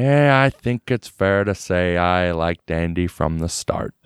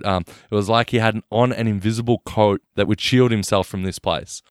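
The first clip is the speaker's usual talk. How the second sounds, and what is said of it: Imitates another person's voice. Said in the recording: “That Freeman impersonation was spot on.”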